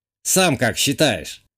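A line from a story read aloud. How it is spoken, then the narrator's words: Snort. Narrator (Russian): Хмыкнул бывший игровой скрипт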